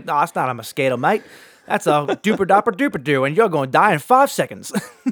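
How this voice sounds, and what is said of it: Inconsistent put-on Australian accent. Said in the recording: “The accent changed 5 times. ... I think it was offensive ... It started off strong”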